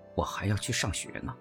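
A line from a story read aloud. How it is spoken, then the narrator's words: Displeased grumbling. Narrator (Chinese): 我心中不快，嘟囔着说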